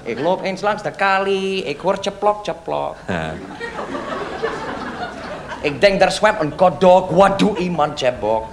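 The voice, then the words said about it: Put-on Yiddish-flavoured Dutch accent. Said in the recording (Dutch): “Ik zal met mijn accent praten, ja? Ik praat met mijn accent ... Oh, je bent Jiddisch.”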